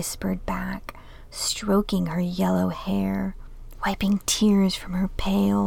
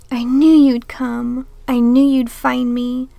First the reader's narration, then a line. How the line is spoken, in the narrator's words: said, her voice stronger now